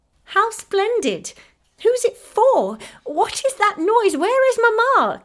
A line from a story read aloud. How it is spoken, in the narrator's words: cried Effie, pale with pleasure and surprise